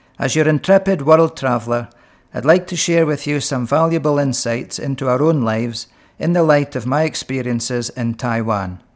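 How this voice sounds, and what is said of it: Strong Aberdeenshire Scottish accent. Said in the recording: “with a strong Aberdeenshire accent”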